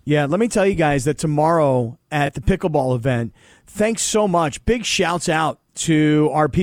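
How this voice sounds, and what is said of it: Usual voice. Nothing is said of it.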